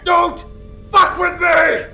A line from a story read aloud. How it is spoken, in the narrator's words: Jack bellowed